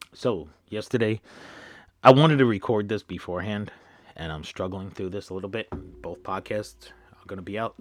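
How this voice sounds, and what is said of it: Strained, nearly lost voice. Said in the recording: “Try to keep myself from losing my voice again like I did last night ... just warming up there a little bit as I get my voice going”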